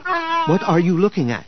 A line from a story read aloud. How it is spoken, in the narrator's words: He asked eagerly